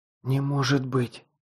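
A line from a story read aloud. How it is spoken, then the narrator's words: Whispered. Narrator (Russian): прошептала Лесла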